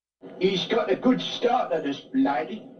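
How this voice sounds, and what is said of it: Exaggerated Cockney accent. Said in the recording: “Oh my God, that's horrible. That's his Cockney accent... he's ugly and he sounds ugly... He sounds like it's like the 1860s and he's in a horse carriage... it's so Cockney.”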